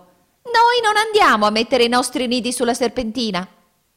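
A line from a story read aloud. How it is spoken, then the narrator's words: Shrieking. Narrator (Italian): la signora Fringuello strillò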